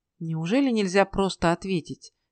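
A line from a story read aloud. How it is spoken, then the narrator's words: Gentle reproach. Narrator (Russian): мягко укорил кузнеца Ной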